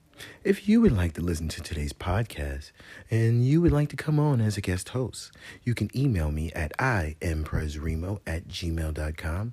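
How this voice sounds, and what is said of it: Announcer-style commercial voice. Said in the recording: “I got to put on my commercial voice.”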